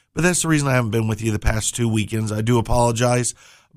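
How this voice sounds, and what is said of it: Hoarse, fried voice. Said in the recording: “my voice is still completely fried... you can hear how my voice is”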